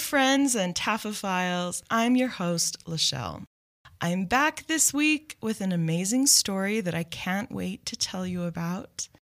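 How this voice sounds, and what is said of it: Weird voice, unwell from cough. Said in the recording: “I have had a cough for a really long time ... hopefully you guys can forgive the weird voice”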